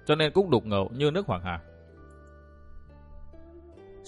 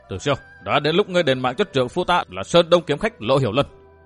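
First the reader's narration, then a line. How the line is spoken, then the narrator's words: Woman shouting accusingly. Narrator (Vietnamese): Nàng chỉ mặt Tử Siêu quát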